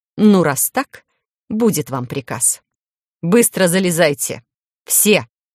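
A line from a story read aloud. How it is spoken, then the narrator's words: Commanding bark. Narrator (Russian): командным голосом рявкнул я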